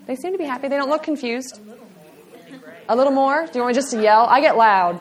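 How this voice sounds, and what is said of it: Picked-up Southern Texan accent. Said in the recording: “I don't know where this accent's coming from. I'm tired and I'm in Texas. I'm not from here. I don't talk like this. I pick up accents”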